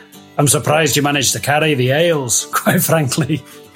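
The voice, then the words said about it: Put-on Scottish accent. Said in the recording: “there's you with the Scottish fucking accent ... All dwarves are Scottish.”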